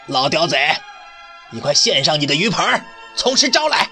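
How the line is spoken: Official shouting. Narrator (Chinese): 县官叫道

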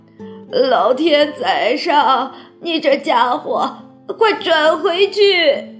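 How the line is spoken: Old woman shouting loudly. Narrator (Chinese): 乔治拉姥姥大叫

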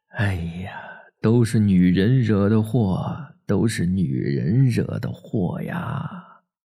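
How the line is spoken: Sighing lament, old man. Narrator (Chinese): 爷爷……唉声叹气，叹着气说

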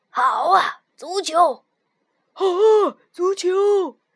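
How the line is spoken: Loud group shouting. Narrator (Chinese): 海盗们又大叫起来

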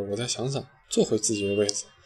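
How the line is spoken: Embarrassed muttering. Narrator (Chinese): 小妍被他说的没趣儿，嘟囔着

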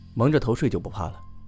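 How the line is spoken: Calm, flat. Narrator (Chinese): 白毅 淡淡说道

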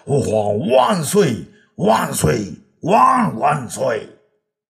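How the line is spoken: Crowd shouting in unison. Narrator (Chinese): 众人也只好跟着跪下呀，齐声大叫

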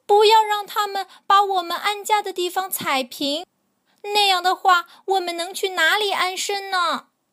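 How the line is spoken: Birds crying out. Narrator (Chinese): 海鸟们喊着

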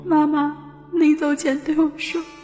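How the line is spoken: Choked up. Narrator (Chinese): 她哽咽了，一下又接着说

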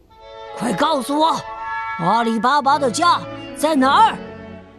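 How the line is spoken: Gruff shouting. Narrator (Chinese): 盗贼头目就粗声粗气的嚷嚷道

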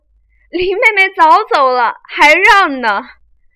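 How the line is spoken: Group laughing. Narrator (Chinese): 众人笑说

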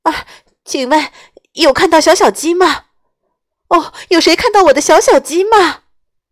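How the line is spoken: Frantic loud shout. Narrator (Chinese): 鸡妈妈给急坏了，它大声的叫了起来

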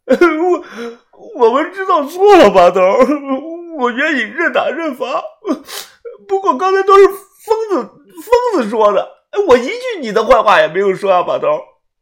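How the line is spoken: Crying loudly. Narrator (Chinese): 豆芽仔哭着大声的说道

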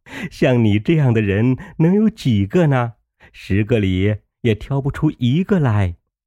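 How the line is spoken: Laughing. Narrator (Chinese): 凤姐笑道

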